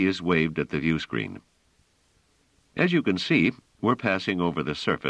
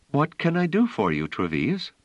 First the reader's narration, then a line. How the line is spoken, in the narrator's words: She said with a smile and in a perfectly pleasant tone